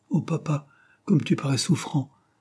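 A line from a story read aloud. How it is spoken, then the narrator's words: Involuntary exclamation. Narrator (French): s'écria-t-elle involontairement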